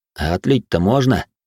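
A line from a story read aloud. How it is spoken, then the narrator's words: Mocking question. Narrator (Russian): Насмешливо поинтересовался я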